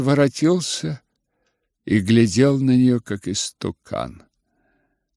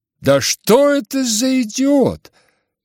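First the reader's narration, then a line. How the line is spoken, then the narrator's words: Indignant cry. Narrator (Russian): С негодованием вскрикнула ... Настасья Филипповна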